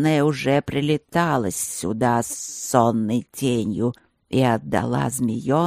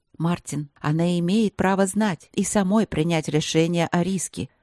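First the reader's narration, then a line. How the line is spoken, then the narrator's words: Soft, gentle. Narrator (Russian): мягко проговорила Вики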